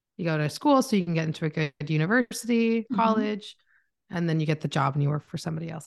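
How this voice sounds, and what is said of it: Canadian accent. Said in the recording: “I am Canadian. So if you hear my accent, I am from Canada.”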